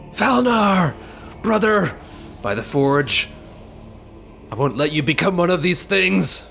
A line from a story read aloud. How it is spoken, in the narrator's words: Seeing his brother fall, yells in rage